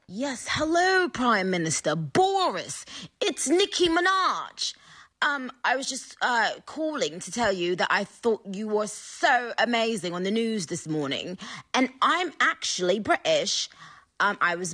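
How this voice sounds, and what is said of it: Put-on English accent. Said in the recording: “a voice message in an English accent, in a Roman English accent”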